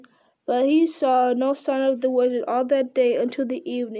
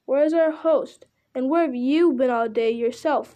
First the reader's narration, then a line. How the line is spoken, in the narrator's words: they all cried